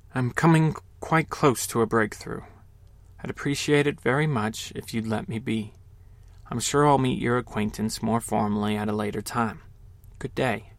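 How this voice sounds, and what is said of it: Barely audible, very quiet voice. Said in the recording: “In a barely audible voice,”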